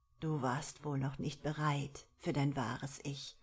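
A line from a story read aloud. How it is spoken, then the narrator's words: Plain. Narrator (German): sagte sie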